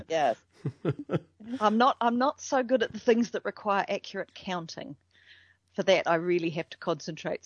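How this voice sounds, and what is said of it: New Zealand accent. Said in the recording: “That's the fun part about the folks from your end of the world is we get to listen to the accents”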